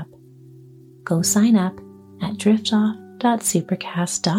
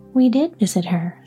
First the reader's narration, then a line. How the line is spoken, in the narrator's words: said the Scarecrow